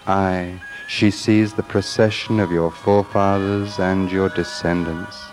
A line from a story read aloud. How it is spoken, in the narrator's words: And the cat purred